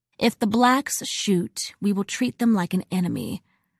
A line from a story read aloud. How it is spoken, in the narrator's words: a guardsman said